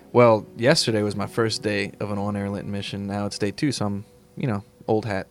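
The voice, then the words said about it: Polished radio announcer voice. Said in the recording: “You sound like you've done this before. ... You have that radio voice”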